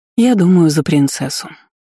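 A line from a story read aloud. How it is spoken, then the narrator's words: Soft. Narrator (Russian): мягко сообщила друзьям Дисси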